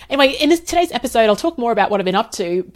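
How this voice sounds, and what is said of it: Slightly rough voice. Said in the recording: “my voice is also a little bit rough”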